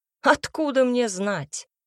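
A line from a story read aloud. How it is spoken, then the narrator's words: Snort. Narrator (Russian): хмыкнул Тибр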